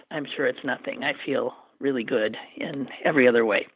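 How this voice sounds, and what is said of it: Raspy, hoarse throat. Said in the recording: “I've got a little bit of a throat issue ... my sort of raspy throat”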